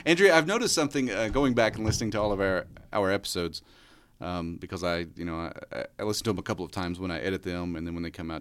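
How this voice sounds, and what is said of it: American country accent. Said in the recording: “my country accent is coming out progressively more and more”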